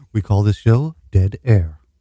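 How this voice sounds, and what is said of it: Deep radio announcer voice. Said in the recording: “Oh, that's a good radio voice... Good and down there.”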